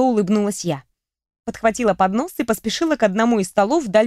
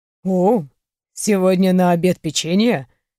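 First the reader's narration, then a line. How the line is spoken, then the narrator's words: Snort from the side. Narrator (Russian): хмыкнули сбоку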